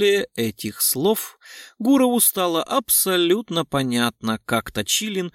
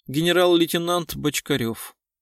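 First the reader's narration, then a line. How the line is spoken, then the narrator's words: Calm answer. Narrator (Russian): спокойно ответила Евгения, заместитель министра внутренних дел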